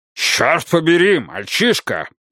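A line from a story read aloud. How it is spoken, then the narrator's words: Barking. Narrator (Russian): рявкнул Уодворд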